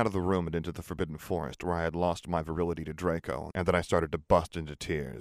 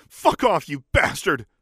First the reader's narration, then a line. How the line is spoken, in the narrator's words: I screamed